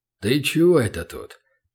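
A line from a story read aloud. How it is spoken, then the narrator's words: Suspicious grumble. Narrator (Russian): проворчал он подозрительно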